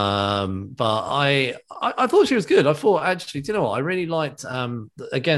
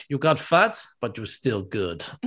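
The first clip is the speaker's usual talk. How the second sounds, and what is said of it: Attempted Russian accent. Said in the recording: “that's my attempt at a Russian accent.”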